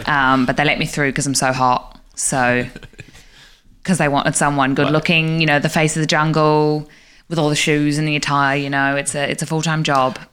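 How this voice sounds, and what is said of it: British-Australian accent. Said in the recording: “you are the first British-Australian tiger I've met ... My mum was Australian. My dad was British ... My accent's a little bit influenced.”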